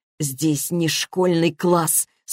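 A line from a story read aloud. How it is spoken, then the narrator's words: Hiss through teeth. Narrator (Russian): сквозь зубы шипит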